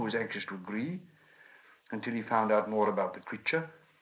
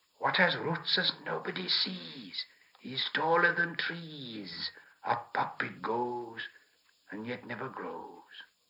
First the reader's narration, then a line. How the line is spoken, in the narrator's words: So Gollum hissed